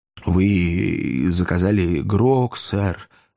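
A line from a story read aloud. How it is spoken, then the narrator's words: Timid inquiry. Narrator (Russian): робко осведомился хозяин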